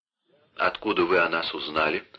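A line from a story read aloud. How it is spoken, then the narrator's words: Plain. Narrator (Russian): спросил Леопольд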